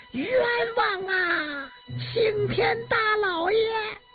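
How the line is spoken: Anguished trembling wail. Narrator (Chinese): 惨厉的哭叫声带着颤音和呜咽

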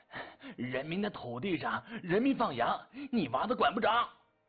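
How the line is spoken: Panting, stubborn. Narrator (Chinese): 刘阳关也呼呼喘气，嘴硬道

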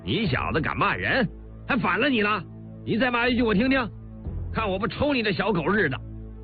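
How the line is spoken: Sudden anger. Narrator (Chinese): 李云龙立刻大怒

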